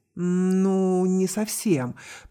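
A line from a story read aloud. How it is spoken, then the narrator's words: Drawling. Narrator (Russian): протянул капитан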